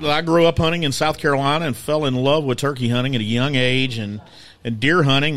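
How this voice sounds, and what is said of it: Southern US country accent. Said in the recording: “my accent makes me sound like I'm from somewhere in Fort Worth, Texas, because it's a combination of West Virginia and the low country of South Carolina ... you're from way down in the south ... you sound country”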